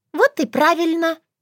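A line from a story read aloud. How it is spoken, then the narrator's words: Squeak. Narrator (Russian): пискнула Шушана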